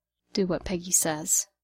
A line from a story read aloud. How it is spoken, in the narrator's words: Steve murmured to the steering wheel